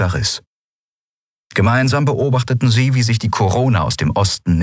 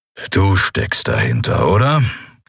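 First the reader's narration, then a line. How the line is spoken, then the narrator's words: Growling. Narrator (German): knurrte Kero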